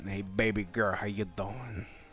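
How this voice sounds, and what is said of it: Put-on thug accent. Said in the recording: “my thug accent”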